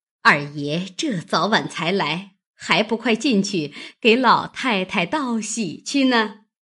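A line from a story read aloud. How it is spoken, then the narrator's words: Laughing. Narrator (Chinese): 满院里丫头老婆都是笑容满面，笑道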